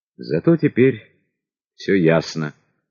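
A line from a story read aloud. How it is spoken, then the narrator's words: Sigh. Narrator (Russian): вздохнул Столыпин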